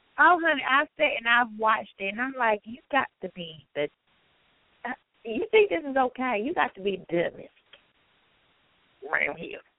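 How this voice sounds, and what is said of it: Country accent. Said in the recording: “There's a country accent coming out. I'm hearing it tonight.”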